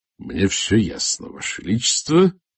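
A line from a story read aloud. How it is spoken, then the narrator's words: Muttered through teeth. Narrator (Russian): сквозь зубы процедил Масуд Мирза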